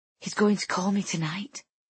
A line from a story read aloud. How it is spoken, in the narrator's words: I whisper, blinking at her in shock